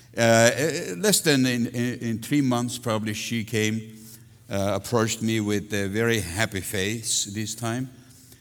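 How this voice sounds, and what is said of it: Non-native English accent. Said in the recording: “because of my accent ... we both have an accent issue”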